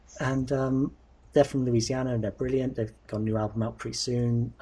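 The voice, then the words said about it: Working-class accent, TH said as F. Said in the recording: “My working class accent doesn't allow me to render TH sounds, it does them as Fs.”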